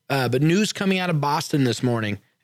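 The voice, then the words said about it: Put-on northeastern Boston accent. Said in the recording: “I threw my northeastern accent there”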